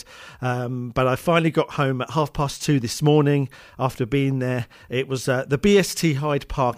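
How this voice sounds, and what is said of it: Tired, slightly odd-sounding voice. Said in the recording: “I'm sounding tired, and my voice might sound a little bit weird”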